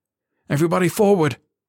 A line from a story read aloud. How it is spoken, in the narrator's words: he barked